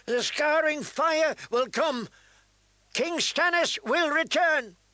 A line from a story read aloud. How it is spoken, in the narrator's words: he continued to shout